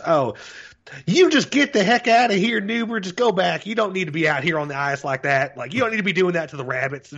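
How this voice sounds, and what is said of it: Put-on Southern US accent. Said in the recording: “doesn't have a Southern accent. It's the color commentary guy ... sounds straight out of, like, Michael Waltrip from fucking NASCAR”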